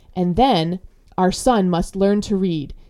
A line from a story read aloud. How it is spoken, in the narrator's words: he said frantically